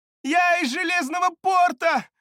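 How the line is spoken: Shout. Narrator (Russian): выкрикнула она

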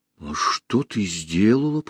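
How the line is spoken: Whisper. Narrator (Russian): прошептал Аркаша

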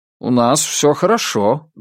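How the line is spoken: Friendly, somewhat confused. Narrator (Russian): дружелюбно, но несколько растерянно ответил Флойд

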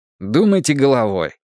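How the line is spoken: Irritated suggestion. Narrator (Russian): раздраженно предложил я

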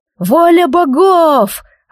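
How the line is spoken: Frenzied crowd roaring. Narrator (Russian): орала толпа, сходя с ума

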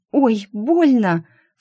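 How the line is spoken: Cry of pain. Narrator (Russian): вскрикнула Шу, когда один из лучей попал ей в глаз

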